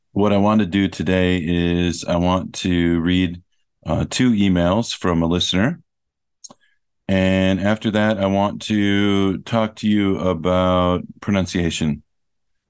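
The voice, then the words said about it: Sick, lower, rough-sounding voice. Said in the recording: “I apologize for my voice today. I'm sick, so my voice sounds a little bit weird, a little bit lower than it usually is.”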